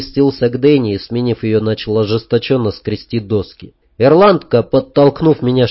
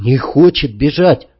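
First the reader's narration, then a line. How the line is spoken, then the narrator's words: Angry. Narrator (Russian): ответил я зло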